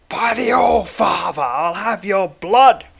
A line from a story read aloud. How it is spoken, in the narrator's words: shrieks the knight as he attacks